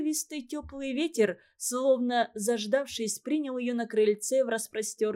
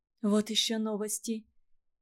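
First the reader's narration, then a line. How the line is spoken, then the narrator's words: Bewildered whisper. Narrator (Russian): растерянно прошептала она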